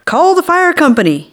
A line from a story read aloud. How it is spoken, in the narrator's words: he hollered